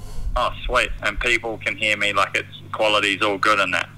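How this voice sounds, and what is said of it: New Zealand accent, smooth voice. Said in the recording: “once you add in the Kiwi accent, it must make it sound, like, pretty decent ... you sound sexier ... You sound like old whiskey”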